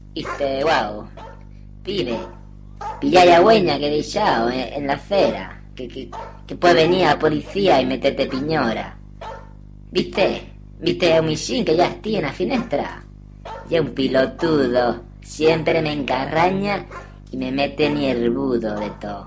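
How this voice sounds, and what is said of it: Put-on Argentine accent. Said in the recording (Spanish): “con acento argentín? Agora en ye posible. Argentín.”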